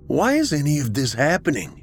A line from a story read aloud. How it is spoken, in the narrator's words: Tolliver sighed